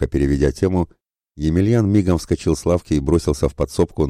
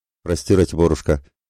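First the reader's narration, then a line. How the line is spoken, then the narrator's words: Embarrassed mumble. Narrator (Russian): смущенно пробурчал тот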